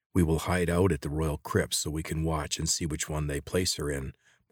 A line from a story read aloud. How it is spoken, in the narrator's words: Morgon said